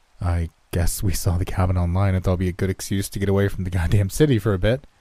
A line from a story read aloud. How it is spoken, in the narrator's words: I chuckled again, feeling more awkward by the second